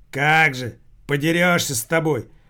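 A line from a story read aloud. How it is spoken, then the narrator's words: Angry. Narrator (Russian): зло проговорил Рохля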